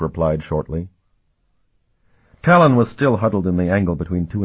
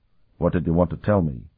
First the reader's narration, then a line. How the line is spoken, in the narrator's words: He said quietly